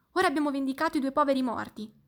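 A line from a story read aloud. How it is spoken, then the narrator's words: Exclaimed together. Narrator (Italian): esclamarono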